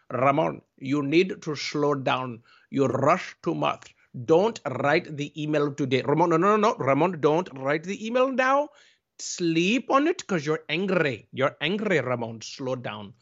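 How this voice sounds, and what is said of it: Thick Indian accent. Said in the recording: “with a thick Indian accent ... I say that with that accent and love”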